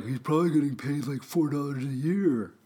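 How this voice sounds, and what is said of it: Imitates sports fans' voice. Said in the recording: “my impression of Suns fans who are idiots”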